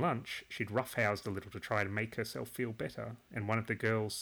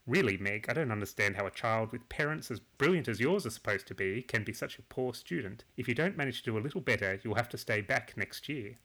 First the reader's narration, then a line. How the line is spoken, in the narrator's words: had said crossly